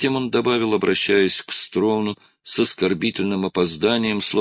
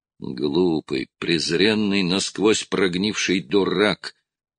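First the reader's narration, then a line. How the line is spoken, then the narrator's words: Quiet, stung voice. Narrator (Russian): Голос Кулума, задетого за живое, звучал тихо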